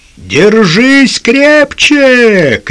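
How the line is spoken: Shouting over wind and water. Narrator (Russian): крикнул Лукас сквозь свист ветра и шум воды

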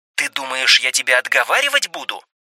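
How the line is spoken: Hissed reply. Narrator (Russian): зашипела в ответ Демендес

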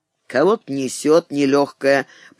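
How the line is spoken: Grumbled. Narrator (Russian): проворчал

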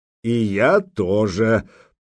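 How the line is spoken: Deep bass, grinning. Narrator (Russian): пробасил Гудмунд, ухмыляясь

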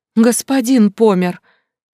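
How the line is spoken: Panicked breathless exhale. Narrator (Russian): Не зная, куда деть ходящие ходуном руки, выдохнула она

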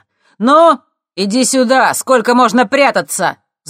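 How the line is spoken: Gloating shout. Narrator (Russian): злорадно крикнул он

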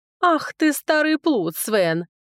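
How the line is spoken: Giggling. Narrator (Russian): хихикнула Марилька

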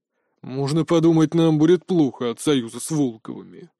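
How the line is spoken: Skeptical snort. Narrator (Russian): хмыкнул Глеб Егорович

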